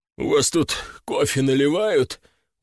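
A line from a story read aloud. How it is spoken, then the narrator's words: Tired question. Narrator (Russian): устало спросил хозяин химеры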